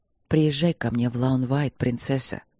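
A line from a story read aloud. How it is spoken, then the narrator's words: Soft, persuasive request. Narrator (Russian): мягко попросил он, так, чтобы не могла отказаться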